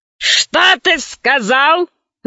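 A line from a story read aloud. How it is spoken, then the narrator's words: Growling. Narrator (Russian): зарычала она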